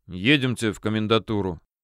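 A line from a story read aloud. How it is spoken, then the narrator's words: Calm, restrained. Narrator (Russian): генерал произнес спокойно и сдержанно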